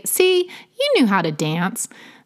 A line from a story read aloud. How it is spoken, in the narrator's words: made him laugh and say